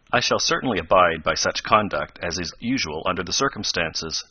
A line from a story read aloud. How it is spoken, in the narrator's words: said Professor Beecher more stiffly than before